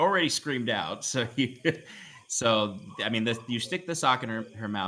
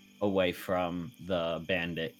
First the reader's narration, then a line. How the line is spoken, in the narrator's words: Kieran whispers to them